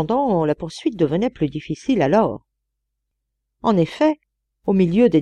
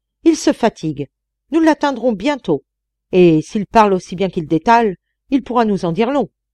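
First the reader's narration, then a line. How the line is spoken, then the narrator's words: Shouting. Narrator (French): criait-il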